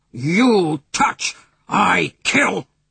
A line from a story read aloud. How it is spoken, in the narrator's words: the Indian growled ferociously